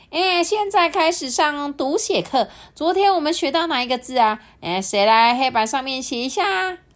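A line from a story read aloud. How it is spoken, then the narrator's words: Loud question. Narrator (Chinese): 母鸡太太呀就大声的问说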